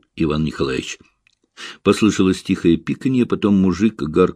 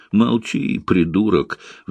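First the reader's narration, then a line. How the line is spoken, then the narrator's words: Shrill shriek. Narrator (Russian): взвизгнул Иван Николаевич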